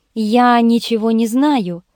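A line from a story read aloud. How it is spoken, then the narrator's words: Calm, even voice. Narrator (Russian): Ольга Андреевна, сохраняя завидное хладнокровие, ровным голосом произнесла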